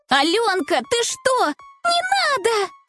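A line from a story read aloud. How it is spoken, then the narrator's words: Overlapping shouts, several girls. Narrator (Russian): Наперебой закричали ее подруги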